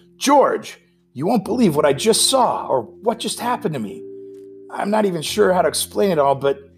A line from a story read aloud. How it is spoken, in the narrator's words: exclaimed